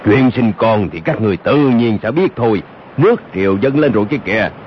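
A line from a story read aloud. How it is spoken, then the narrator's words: Deep booming voice. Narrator (Vietnamese): một giọng nói ồm ồm vang lên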